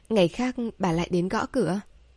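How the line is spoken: Soft sigh. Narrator (Vietnamese): nhẹ nhàng thở ra một tiếng

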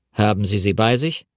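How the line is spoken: Sharp question. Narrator (German): fragte er scharf

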